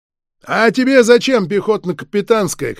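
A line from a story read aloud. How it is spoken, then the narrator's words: Shout after someone, barman. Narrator (Russian): крикнул вслед буфетчик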